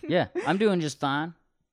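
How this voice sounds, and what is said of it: Put-on accent. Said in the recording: “I don't know why I have that accent.”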